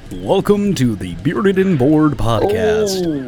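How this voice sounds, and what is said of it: Radio announcer voice. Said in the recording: “Best radio voice.”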